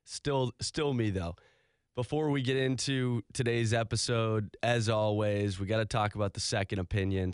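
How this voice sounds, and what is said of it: Slightly hoarse voice. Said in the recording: “Voice is feeling a little hoarse... feeling a little bit hoarse.”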